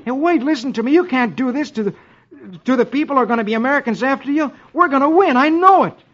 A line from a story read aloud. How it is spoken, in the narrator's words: exclaims